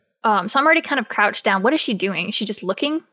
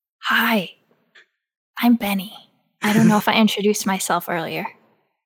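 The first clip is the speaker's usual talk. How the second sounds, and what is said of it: Whispered speech. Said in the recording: “as quietly as I can, being 4 stories tall, like a big giant whisper”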